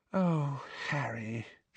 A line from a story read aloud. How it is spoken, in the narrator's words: she said sadly